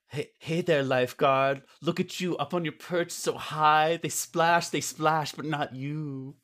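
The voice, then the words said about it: Made-up ambiguous foreign accent. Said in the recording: “I'm going to try and do the ambiguous foreign accent ... It's a made up accent.”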